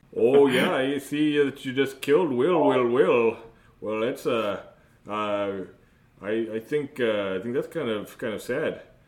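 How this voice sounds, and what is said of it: Put-on Minnesota accent. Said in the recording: “this is a Minnesota accent. It's not a Wisconsin accent. It's totally different”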